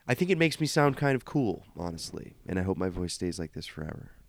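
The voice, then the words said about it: Slightly hoarse voice. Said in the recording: “you can probably hear I'm still a little bit hoarse”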